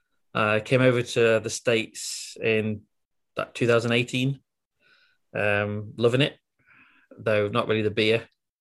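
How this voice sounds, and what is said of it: Scottish accent. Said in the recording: “as you can probably tell from my accent, I'm not American. I'm from Britain, originally from Scotland.”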